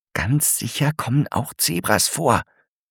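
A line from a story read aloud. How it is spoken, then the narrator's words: Whispering. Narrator (German): flüstert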